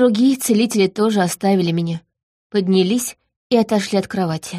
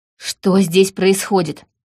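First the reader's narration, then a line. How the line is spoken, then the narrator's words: Shouting. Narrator (Russian): крикнул Эриан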